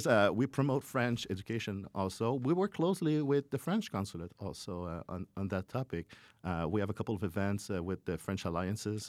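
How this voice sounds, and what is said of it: French-accented English. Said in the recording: “there's a French language thing, as I can hear with my accent”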